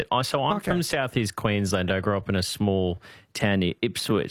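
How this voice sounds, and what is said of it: Broad Australian bogan twang. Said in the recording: “I've got a bit of a bogan twang to me”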